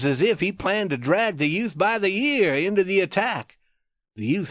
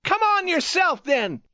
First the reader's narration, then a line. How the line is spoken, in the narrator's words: shouted